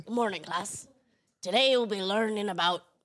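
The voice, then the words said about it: Raspy Hagrid voice. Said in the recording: “That's Hagrid... Is it a bit too raspy for you?”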